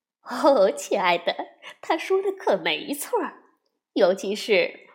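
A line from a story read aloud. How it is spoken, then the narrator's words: Laughing mother bear. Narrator (Chinese): 熊妈妈笑了，说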